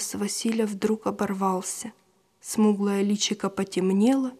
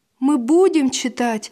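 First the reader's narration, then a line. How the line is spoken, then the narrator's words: Joyful promise. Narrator (Russian): радостно пообещал Василь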